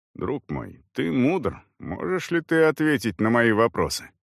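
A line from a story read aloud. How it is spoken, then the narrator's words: Indistinct mumbling. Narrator (Russian): неразборчиво забормотал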